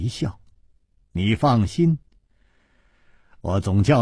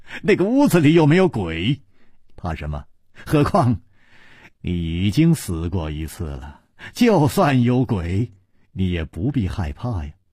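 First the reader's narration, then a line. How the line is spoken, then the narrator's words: Laughing. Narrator (Chinese): 楚留香笑着说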